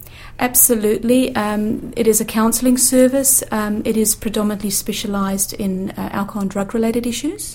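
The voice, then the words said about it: South African accent. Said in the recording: “I have a bit of a twang in my accent from coming from Johannesburg.”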